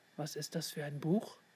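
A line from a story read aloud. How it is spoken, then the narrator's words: Murmured aside. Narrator (German): raunte Leon Tab zu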